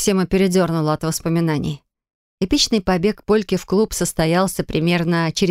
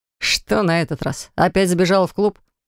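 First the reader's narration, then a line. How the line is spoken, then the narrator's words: Sympathetic snort. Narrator (Russian): Друг сочувственно хмыкнул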